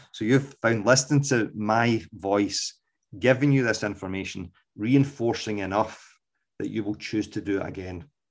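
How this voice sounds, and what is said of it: Scottish accent. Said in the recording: “my dulcet Scots accent, and that's a joke”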